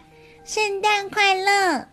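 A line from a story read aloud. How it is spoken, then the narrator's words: Loud cheerful shout. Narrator (Chinese): 小绵羊大声的喊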